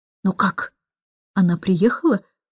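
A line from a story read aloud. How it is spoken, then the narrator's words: Anxious whisper. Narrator (Russian): встревоженным шепотом спросил он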